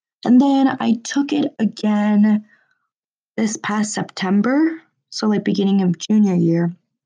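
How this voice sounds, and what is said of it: Sick-sounding voice. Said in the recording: “I'm still a little bit sick. You can hear it in my voice.”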